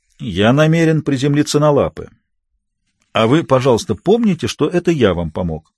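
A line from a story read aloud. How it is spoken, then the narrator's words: Dry cynical tone. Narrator (Russian): Синглет ответил своим сухим, циничным тоном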